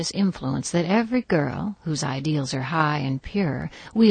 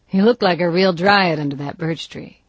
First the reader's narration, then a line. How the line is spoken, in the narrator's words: he said teasingly